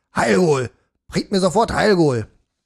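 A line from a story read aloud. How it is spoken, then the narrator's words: Bellowing. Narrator (German): brüllte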